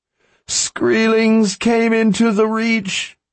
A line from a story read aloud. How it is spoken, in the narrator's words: she cried